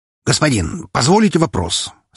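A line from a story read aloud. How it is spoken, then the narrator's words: Suddenly cheerful question. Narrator (Russian): спросил резко повеселевший жук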